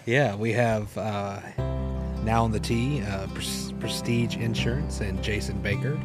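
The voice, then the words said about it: Masters golf announcer voice. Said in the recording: “in your best Masters voice,”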